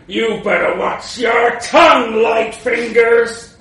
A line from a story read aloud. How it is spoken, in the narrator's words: he growled